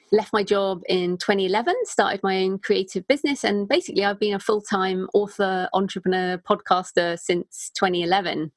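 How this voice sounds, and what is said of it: British English accent. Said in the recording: “from my accent, I am British and I'm living in Bath in the southwest of the UK”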